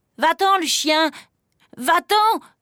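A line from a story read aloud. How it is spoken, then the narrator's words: Shouting at full strength. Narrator (French): crie Pierre de toutes ses forces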